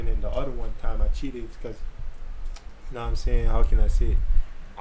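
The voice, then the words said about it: Heavy St. Martin French accent. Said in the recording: “you got a heavy ass accent? ... I'm from St. Martin”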